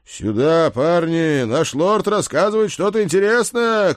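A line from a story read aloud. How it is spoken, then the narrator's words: Older man shouting. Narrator (Russian): крикнул вошедший вместе с Седриком немолодой лучник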